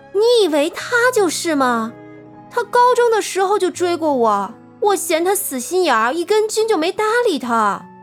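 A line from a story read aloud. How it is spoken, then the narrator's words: Raised, high voice. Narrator (Chinese): 刘静声音拉高了好几度道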